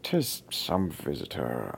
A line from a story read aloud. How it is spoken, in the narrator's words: I muttered